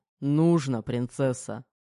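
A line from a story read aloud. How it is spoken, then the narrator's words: Snorting command. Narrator (Russian): Хмыкнул и распорядился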